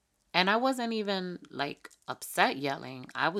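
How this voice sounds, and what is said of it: Usual voice. Nothing is said of it.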